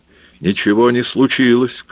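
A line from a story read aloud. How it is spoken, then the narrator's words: Shouting. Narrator (Russian): кричал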